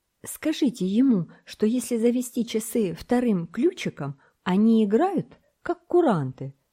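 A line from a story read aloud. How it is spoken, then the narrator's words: Exclaim. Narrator (Russian): воскликнул Томок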